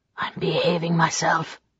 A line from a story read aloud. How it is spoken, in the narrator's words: he said, his voice hoarse